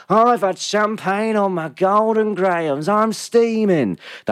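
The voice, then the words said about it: Imitates a comedy character's voice. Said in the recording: “That's Tony Harrison from the Mighty Boosh there. That's my impression of him anyway.”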